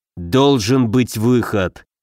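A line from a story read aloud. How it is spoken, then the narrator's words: Through clenched teeth. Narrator (Russian): процедил Муром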